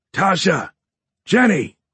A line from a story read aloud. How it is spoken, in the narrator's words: Horn shouted